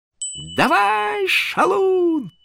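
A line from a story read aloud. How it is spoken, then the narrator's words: Shrieked. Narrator (Russian): завопила она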